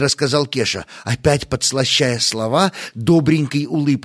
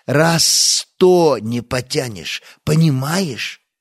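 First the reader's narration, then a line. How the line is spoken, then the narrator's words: Sigh. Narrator (Russian): Стас вздохнул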